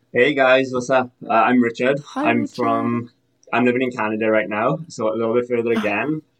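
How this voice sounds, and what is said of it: Welsh accent. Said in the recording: “Is this an accent? ... I'm originally from Wales.”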